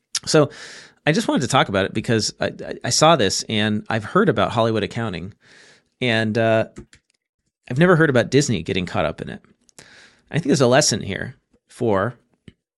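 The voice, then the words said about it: Scratchy, strained voice. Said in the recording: “my voice is really scratchy. So I'm going to do my best not to cough all over this microphone.”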